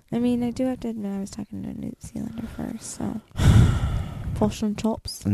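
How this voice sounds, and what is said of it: Usual voice. Nothing is said of it.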